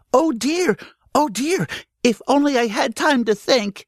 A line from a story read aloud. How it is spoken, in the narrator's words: panted Danny Meadow Mouse